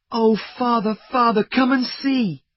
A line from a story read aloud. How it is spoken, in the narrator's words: he cried